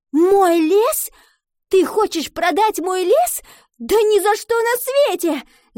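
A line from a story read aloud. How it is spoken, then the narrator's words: Shouting. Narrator (Russian): закричала она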